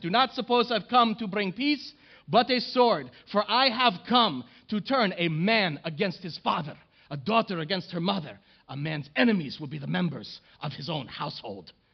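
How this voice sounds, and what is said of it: Put-on Arabic accent, yelling. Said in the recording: “starts yelling these words through a bullhorn with an Arabic accent”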